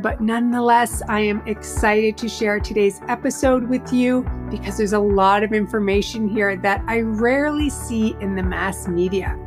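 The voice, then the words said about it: Slightly raspy voice. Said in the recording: “Still a bit of a raspy voice here”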